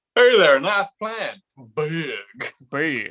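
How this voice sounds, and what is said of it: Imitated voice, weird southern accent. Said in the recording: “He's doing some kind of weird like kind of southern accent throughout it.”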